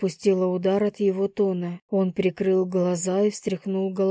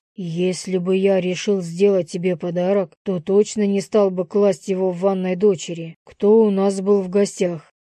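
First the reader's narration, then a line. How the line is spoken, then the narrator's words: Growled. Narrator (Russian): Зарычал он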